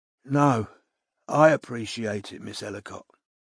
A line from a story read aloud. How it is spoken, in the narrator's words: he said in his low, hoarse voice